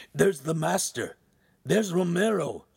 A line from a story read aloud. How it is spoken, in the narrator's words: Ugolino cried